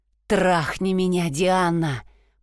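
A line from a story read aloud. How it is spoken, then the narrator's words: Moan. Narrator (Russian): простонал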